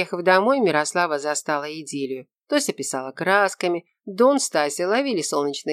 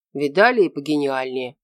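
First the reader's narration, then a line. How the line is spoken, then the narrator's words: Grumbling. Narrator (Russian): пробурчал Наполеонов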